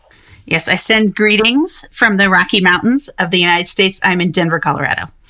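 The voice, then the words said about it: Noticeable accent. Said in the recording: “I notice a, an accent there.”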